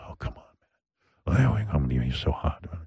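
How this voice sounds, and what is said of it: Put-on sexy voice. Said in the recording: “I have my sexy voice.”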